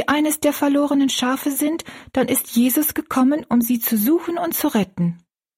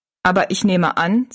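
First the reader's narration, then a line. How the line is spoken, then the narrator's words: Plain. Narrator (German): sagte Jings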